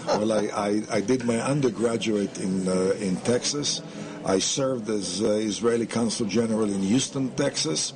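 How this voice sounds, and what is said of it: Foreign, non-Texan accent. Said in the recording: “if I didn't hear your accent, I'd say you look like a Texan.”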